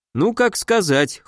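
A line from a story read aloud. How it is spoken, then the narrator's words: Wry snort. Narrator (Russian): хмыкнул я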